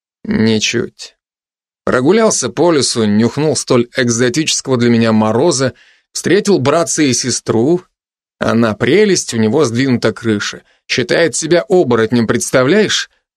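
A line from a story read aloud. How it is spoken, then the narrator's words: Wry snort. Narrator (Russian): хмыкнул я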